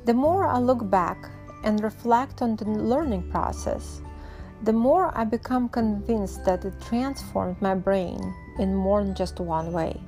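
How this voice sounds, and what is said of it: Non-native English accent. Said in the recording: “As you can tell by my accent, I had to master that skill myself”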